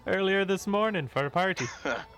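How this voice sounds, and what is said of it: Weird character accent. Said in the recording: “that switched into a weird accent.”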